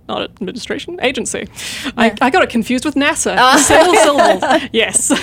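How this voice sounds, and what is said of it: New Zealand accent. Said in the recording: “that awesome accent”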